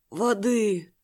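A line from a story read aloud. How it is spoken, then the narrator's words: Hoarse wheeze. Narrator (Russian): прохрипел Хань Юань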